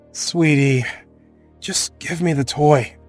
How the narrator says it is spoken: I said with a sigh

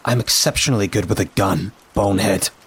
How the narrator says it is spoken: I snapped

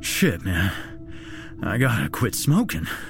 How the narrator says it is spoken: Jack stated in between gasps for air

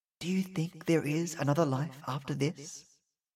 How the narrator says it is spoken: she asked in a low, soft voice

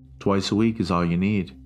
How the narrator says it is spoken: she said

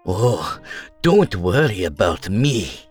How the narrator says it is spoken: Lady Zusa snarled

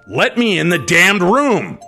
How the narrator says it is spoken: Dad yelled out in a commanding voice

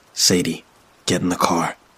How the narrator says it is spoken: he said quietly

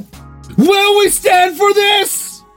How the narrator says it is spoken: I shouted

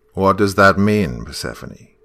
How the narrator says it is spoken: he asked

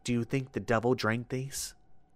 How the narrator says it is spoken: he whispered shrilly

